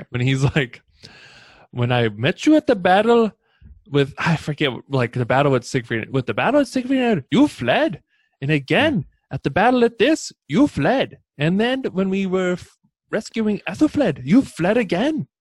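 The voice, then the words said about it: Imitates a character's accent. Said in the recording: “I'm going to try and do his accent here.”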